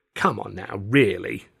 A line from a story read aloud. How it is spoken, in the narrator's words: John said with an infuriatingly patronising sneer